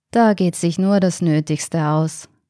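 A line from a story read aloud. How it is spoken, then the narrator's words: Murmured. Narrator (German): murmelte Michaela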